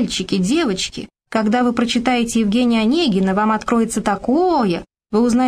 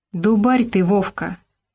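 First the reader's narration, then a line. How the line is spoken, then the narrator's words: Regretful sigh. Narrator (Russian): с сожалением вздохнул Робко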